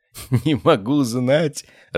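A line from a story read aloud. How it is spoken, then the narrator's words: Laughing. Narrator (Russian): рассмеялся я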